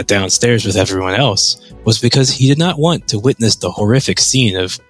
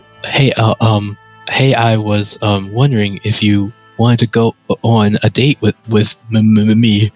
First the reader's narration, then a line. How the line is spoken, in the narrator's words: Ted stammered